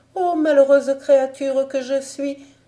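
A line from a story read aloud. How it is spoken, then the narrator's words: Sobbing, bewildered cry. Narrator (French): s'écria alors la fille de l'empereur en sanglotant et toute désorientée comme si elle était tombée là des nues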